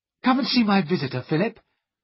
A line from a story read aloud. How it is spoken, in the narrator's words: she cried